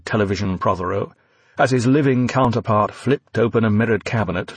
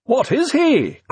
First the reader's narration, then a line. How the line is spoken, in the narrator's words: cried Prothero